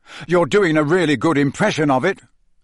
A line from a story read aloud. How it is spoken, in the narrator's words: Harry snapped